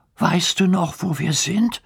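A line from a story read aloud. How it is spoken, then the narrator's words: Anxious question. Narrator (German): fragt Hugo ängstlich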